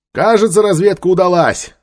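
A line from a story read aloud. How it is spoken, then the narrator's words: Shouted. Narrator (Russian): крикнул Нефер Таити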